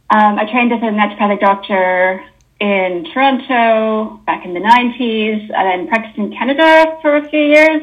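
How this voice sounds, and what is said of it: Canadian accent. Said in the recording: “as you can probably hear from my accent, I'm Canadian.”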